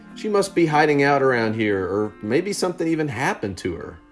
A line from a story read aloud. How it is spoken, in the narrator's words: Andrew exclaimed